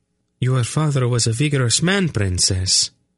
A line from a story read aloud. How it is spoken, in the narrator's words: Bethra told her calmly